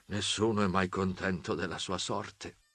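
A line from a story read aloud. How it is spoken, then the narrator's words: Sorrowful murmur. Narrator (Italian): Il dottore mormorava con aspetto accorato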